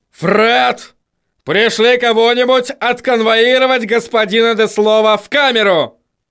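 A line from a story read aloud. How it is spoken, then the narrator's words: Yelling. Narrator (Russian): заорал он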